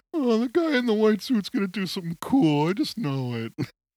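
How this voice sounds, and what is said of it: Homer Simpson cartoon voice impression. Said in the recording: “Your Homer Simpson impression sounds an awful lot like Pete Steele.”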